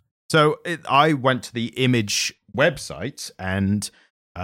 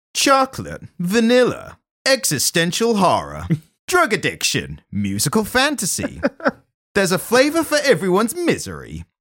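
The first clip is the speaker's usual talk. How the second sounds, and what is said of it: Wacky sitcom announcer voice. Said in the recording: “I'm going to do it in a kind of wacky sitcom voice.”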